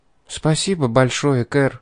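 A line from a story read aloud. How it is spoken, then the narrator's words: Soft, quiet. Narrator (Russian): тихо произнесла Энжель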